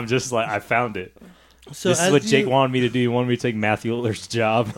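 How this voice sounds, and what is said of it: Usual voice. Nothing is said of it.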